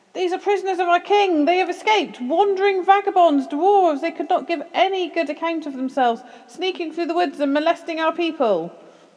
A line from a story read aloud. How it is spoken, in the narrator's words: they cried